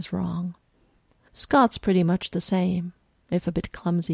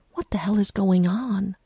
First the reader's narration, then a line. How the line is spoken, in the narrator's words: Stiles hisses as he gets to within earshot of the vet and out of earshot of any potential werewolves in his class